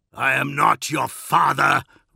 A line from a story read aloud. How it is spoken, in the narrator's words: roared Dawn, his anger suddenly filling the air and echoing from the amphitheatre walls